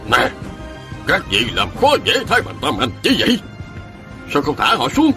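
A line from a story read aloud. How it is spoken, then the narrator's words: Sudden shouted question. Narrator (Vietnamese): Mẫn Tử Hoa quát hỏi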